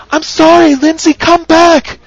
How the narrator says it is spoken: she called out into the open air

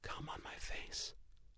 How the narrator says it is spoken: She in anticipation murmured

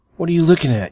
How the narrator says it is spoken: barked, annoyed your shower session had been interrupted

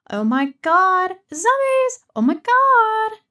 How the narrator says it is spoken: screaming

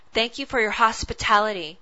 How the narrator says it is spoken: spat Aluth

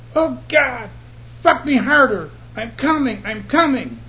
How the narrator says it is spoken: Suddenly, she cried out

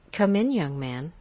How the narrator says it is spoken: she said

